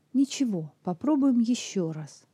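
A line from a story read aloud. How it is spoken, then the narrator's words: Cheerful. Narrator (Russian): бодро сказал Сэнди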